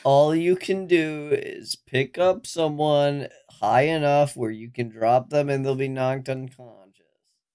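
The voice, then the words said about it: Good imitation of a character's voice. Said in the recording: “That was a pretty good impression”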